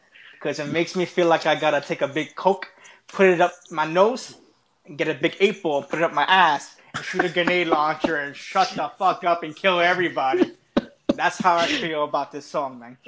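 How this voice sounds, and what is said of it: Scarface character voice imitation. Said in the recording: “your whole little Scarface imitation”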